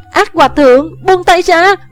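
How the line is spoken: Shocked scream. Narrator (Vietnamese): Thủy Sanh cả kinh thét lên

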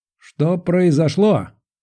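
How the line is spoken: Yelling. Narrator (Russian): заорал Моисей Абрамович

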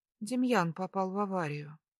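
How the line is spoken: Flat colorless tone. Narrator (Russian): произношу бесцветным тоном

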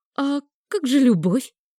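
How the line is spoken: Crushed squeak. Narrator (Russian): пискнула я, раздавленная неприятной правдой тетки

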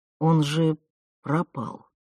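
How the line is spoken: Father's flat, wooden mutter. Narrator (Russian): Деревянным голосом пробормотал отец

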